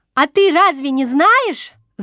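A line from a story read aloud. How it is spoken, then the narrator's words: Shouting across table. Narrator (Russian): закричала через стол Маруся Запольская, которую прозвали Краснушкой за ее ярко-красного цвета волосы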